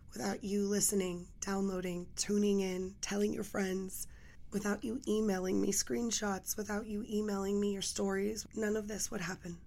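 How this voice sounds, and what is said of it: Raspy, hoarse low voice. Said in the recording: “I'm still battling this raspy voice... sexy nighttime ... hopefully my voice will be back in 2022. That cold winter storm really knocked me out... my voice went on vacation”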